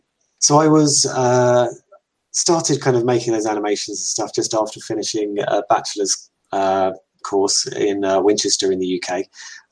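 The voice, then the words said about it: English accent. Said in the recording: “I'm English, in case people hadn't already guessed by the accent.”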